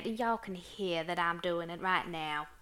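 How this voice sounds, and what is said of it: Put-on American Southern accent. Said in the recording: “We tend to go into different accents at the drop of a hat. ... Most noticeably, it is the southern accent”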